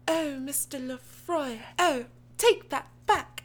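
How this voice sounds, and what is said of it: Deliberately bad put-on British accent. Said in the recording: “doing a terrible British accent.”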